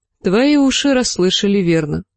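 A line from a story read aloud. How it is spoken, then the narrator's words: Plain. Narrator (Russian): сказала Дыня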